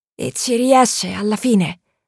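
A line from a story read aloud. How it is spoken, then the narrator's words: Sleepy slurred question. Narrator (Italian): domandò June con la voce impastata dal sonno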